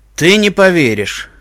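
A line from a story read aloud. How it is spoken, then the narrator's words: Snorting remark. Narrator (Russian): фыркнул его наблюдательный спутник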